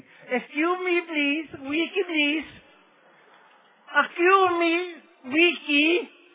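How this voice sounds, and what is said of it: Thick foreign accent. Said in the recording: “I had this stupid accent.”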